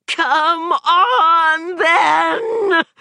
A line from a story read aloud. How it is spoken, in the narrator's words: shrieked